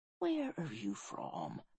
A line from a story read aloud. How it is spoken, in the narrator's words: whispered Lennox